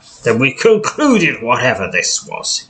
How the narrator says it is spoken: he grumbles

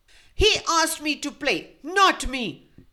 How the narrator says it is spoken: she screeched

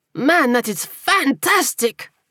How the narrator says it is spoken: he cried

